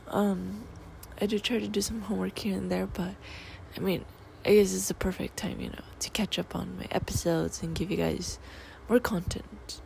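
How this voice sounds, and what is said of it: Rusty, sick-sounding voice. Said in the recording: “I'm sick... my voice is all rusty”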